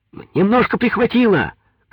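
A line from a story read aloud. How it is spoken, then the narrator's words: Distant shouting. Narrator (Russian): кричали из лодки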